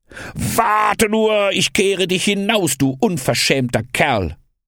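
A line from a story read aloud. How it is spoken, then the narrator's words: Shouting. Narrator (German): schrie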